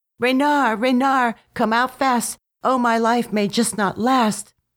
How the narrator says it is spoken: said Quackling to himself, cried out to him

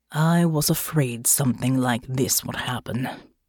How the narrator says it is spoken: muttered

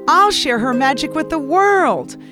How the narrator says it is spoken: exclaimed Nico

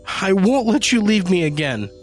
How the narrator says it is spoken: she sobbed

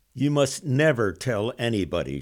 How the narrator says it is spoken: said

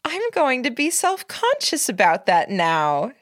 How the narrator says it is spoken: she gasped, sounding almost delighted, her voice rising just high enough that it was above the overall din of the dining room

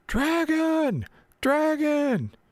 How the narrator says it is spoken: you hear one of them yell

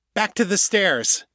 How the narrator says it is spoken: the wannabe leader shouted

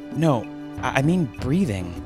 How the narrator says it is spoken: the man replied nervously

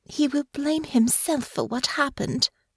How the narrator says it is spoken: said quietly

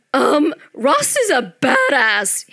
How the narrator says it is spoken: he squeaked

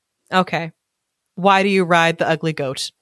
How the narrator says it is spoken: said the prince

